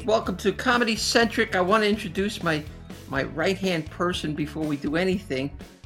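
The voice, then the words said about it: Strong New Jersey accent. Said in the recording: “a killer Jersey accent”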